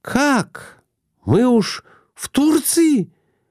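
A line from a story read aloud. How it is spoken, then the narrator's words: Exclaimed. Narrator (Russian): воскликнула Глафира Семеновна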